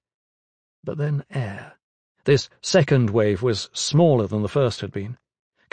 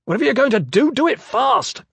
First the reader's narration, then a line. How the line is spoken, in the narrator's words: Kraxer yelled